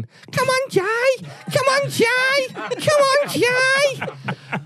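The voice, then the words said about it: Imitates another person's voice. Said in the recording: “that was your impression of your partner of 9 years”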